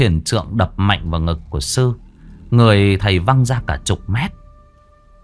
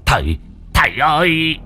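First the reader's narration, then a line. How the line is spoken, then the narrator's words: Howling, old man. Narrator (Vietnamese): Lão thầy bát gào lên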